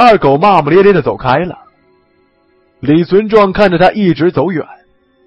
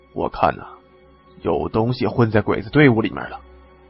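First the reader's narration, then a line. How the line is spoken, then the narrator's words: Hushed. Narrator (Chinese): 李存壮压低声音回答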